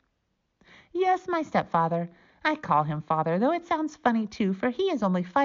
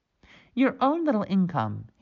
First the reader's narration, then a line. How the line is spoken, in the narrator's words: he asked